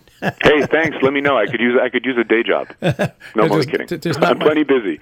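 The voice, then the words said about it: Rich, polished radio voice. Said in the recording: “You've got a great radio voice. You've got a career in radio if you want to go in.”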